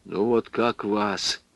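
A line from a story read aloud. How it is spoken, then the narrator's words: Quiet reply. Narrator (Russian): ответил Потапов тихо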